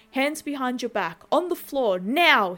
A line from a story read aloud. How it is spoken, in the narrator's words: yells